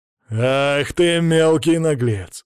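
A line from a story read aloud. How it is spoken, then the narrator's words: Nobleman growling over cheering crowd. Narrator (Russian): зарычал боярин под ликование толпы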